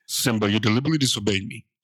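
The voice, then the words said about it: Deep stern dad voice, extra bass. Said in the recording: “put the dad voice with a little extra bass in it ... I'm talking Mufasa.”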